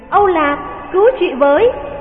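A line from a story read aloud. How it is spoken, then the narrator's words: Crying out. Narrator (Vietnamese): Thánh Thiên kêu lên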